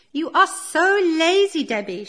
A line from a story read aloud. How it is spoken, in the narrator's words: she screams